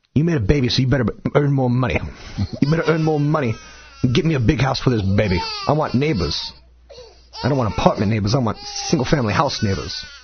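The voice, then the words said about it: Imitates another person's voice. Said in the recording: “who's that an impression of? I don't know.”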